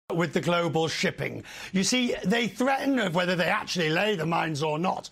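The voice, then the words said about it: Exaggerated British accent. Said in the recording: “the most, like, British accent made for American television accent”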